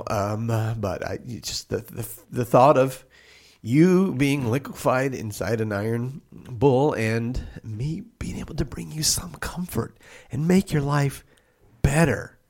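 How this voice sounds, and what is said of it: Choked-up, emotional voice. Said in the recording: “Are you doing an impression right now ... I'm getting a little choked up. I have a hard time speaking when I get emotional.”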